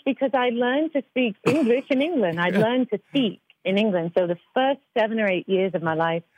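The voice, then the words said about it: Clean British-sounding accent. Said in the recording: “your accent is so clean, and it sounds very British.”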